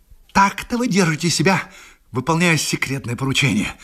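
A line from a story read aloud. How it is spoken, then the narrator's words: Hissed. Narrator (Russian): прошипел он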